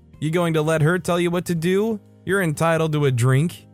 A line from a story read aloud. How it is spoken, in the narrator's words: Mom's boyfriend was laughing and asked